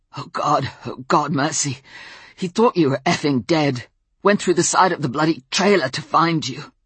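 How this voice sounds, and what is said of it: Hoarse voice with British accent. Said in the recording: “hoarse from the smoke and almost unrecognizable ... the British accent”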